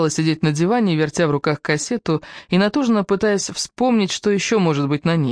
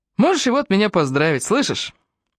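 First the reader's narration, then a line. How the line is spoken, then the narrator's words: Laughing while running. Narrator (Russian): Продолжая на бегу заливаться хохотом, Фрэнк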